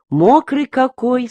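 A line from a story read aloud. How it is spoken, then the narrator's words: Plain. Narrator (Russian): сказала Таня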